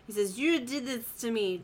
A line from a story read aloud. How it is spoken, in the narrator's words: Dwight slurs